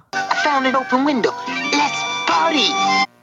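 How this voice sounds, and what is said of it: Cool guy jive-talk character voice. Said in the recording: “A cool guy accent?... sort of a jive speak”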